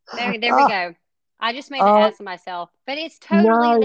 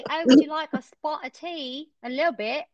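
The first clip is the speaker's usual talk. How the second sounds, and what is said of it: Put-on English accent, slow. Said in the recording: “when you do an English accent ... it has like that southern twang to it almost, as slow.”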